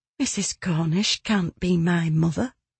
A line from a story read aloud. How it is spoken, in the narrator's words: she said, her voice barely above a whisper